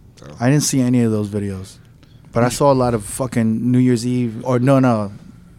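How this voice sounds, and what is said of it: Usual voice. Nothing is said of it.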